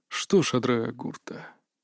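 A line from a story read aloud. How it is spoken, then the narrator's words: Changed tone. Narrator (Russian): совсем другим тоном добавил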